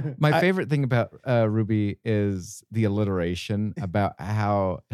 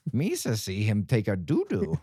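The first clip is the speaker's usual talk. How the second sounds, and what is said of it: Jar Jar Binks impression. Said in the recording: “And Jar Jar Binks.”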